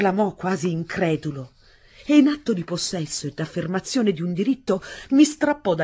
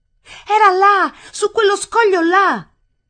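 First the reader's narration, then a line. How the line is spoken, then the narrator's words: Breathless shout. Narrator (Italian): Io gridai ancora ansimante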